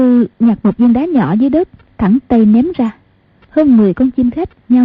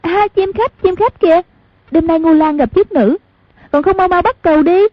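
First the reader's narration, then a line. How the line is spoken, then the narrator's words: Excited cry. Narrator (Vietnamese): Hoàng Dung kêu lên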